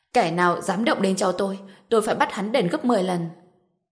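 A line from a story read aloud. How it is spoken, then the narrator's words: Sudden angry yell. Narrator (Vietnamese): Khi nhìn thấy Dương Thái cuốn băng nằm trên giường bệnh, ông đột nhiên nổi giận, hét lên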